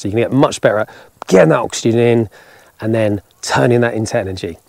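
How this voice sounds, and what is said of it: Tired, exhausted-sounding voice. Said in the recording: “forgive me if I sound tired, because I am ... I am exhausted”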